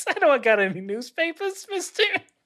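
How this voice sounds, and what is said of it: Silly put-on character voice. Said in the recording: “doing a dumb voice.”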